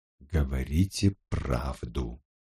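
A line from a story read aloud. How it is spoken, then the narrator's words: Almost whispering. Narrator (Russian): почти шепотом произнес Гамаш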